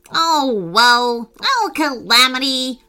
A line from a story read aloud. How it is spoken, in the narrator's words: groaned the monkey